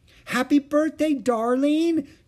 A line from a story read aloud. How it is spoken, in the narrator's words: cried Aunt Beatrice